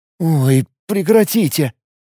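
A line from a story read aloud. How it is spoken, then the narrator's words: Pleading. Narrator (Russian): взмолился Тарас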